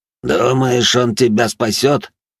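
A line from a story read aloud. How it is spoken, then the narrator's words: Through gritted teeth. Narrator (Russian): сквозь зубы процедил Батиста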